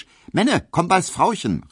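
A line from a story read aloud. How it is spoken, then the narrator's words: Called out. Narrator (German): rief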